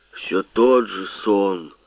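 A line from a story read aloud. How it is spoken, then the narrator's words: In father's voice. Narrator (Russian): сказал почему-то папиным голосом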